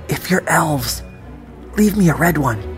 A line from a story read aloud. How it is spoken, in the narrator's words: whispered